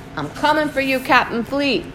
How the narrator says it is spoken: I yell out into the street

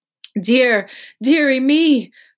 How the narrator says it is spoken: cried my mother

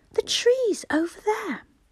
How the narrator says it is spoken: cried Peter suddenly

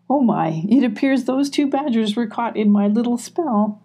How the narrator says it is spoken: Molly said with a giggle

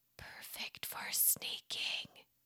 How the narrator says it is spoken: he whispered, determined

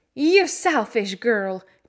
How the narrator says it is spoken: cried Colin

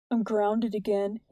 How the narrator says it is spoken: he said softly

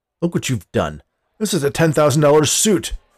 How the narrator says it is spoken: Forrest exclaimed

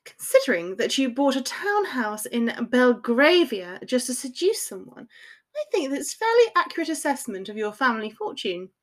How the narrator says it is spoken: she said in a crisp voice

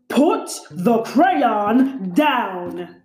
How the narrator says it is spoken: he growled

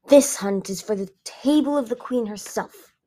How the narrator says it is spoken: Tundra growled

